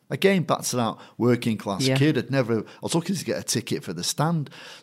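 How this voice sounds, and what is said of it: Mancunian English accent. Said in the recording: “my Mancunian accent”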